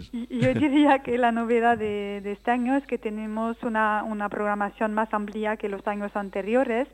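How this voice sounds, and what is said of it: French accent speaking Spanish. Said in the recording (Spanish): “con mi acento francés ... encantador acento francés”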